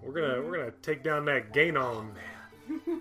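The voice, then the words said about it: Put-on Louisiana Cajun accent. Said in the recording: “That's my Louisiana accent. ... that's a very Cajun way to call it.”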